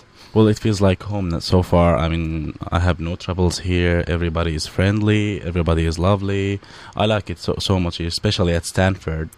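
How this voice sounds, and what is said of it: American accent. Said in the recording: “what an American accent you've started to develop ... this great American accent of yours”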